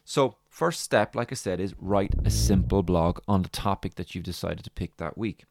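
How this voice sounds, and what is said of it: Irish accent. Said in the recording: “my lovely Irish accent”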